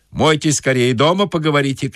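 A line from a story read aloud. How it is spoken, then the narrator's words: Shouted. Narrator (Russian): крикнул банщик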